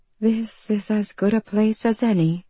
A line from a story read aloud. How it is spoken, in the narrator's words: she murmured